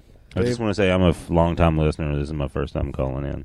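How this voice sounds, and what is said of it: Tennessee drawl. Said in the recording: “That beautiful Tennessee drawl you hear”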